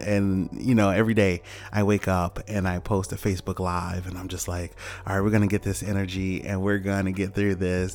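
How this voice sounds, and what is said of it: Tired-sounding voice. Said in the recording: “I don't know if you can hear it in my voice, but I just feel tired today.”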